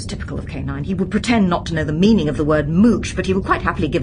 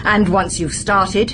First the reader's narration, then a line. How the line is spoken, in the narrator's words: he said, his voice booming with righteousness